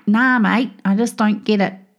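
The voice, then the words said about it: Poor put-on Australian accent. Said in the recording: “that's a terrible Aussie accent”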